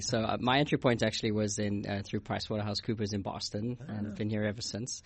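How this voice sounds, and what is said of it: South African accent. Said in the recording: “you're not from here ... you detected an accent ... I'm originally from South Africa”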